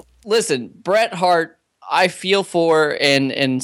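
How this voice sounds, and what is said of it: Usual voice. Nothing is said of it.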